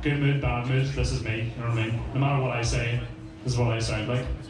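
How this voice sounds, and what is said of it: Flat monotone Belfast-area voice. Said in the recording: “my accent's very boring, very monotone”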